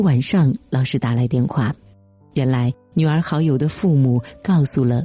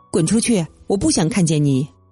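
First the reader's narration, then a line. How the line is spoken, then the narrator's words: Angry shout. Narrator (Chinese): 冲着女儿喊叫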